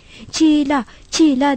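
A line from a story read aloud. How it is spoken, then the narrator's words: Crying out. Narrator (Turkish): diye haykırmaya başladı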